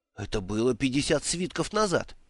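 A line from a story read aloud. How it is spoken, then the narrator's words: Exclaimed. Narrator (Russian): воскликнул Бедн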